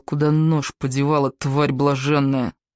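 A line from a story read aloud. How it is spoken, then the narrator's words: Hissed. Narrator (Russian): прошипел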